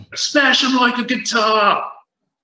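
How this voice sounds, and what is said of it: Put-on Australian accent. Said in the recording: “doing his best Australian impression”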